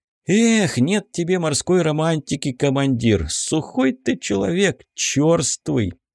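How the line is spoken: Sad sigh. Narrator (Russian): грустно вздохнул Корнеев

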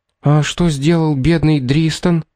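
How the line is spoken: Frightened girl asking. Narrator (Russian): испуганно спросила девушка

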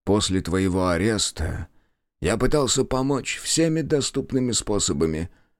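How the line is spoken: Tired but firm. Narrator (Russian): начал он, голос звучал устало, но твердо

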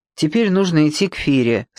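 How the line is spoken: Gloomy. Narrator (Russian): сказал он мрачно

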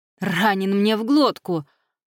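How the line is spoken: Groaned. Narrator (Russian): простонал Джай

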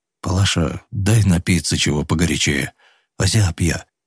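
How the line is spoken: Quiet. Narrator (Russian): тихо сказал Федот

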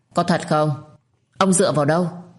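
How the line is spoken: Trembling hopeful old man. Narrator (Vietnamese): Có chút vui mừng, lão run rẩy hỏi lại lão Hưng

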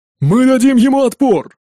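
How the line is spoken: Shout. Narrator (Russian): крикнул кто-то

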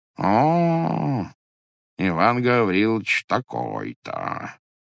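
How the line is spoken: Muffled, to himself. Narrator (Russian): повторяет он глухо про себя

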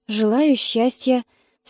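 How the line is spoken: Forced, strained words. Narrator (Russian): выдавила из себя

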